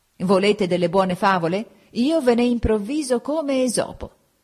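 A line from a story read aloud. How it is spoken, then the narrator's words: Yelled. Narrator (Italian): Egli allora urlò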